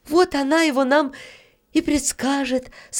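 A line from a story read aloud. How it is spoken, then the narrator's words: Relieved sigh. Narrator (Russian): с облегчением вздохнула Таня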